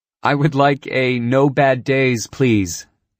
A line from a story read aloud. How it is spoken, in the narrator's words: she said with a soft giggle